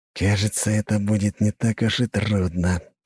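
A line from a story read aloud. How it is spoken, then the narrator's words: Hiss. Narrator (Russian): прошипел он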